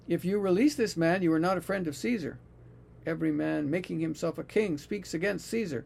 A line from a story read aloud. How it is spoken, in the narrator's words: the Jews shouted, saying